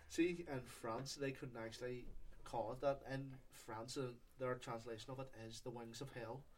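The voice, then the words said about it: Speaks with a noticeable accent. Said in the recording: “you cannot pronounce the name of it. in your accent.”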